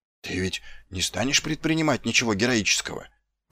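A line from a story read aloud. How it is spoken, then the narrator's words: Whisper. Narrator (Russian): прошептал один из них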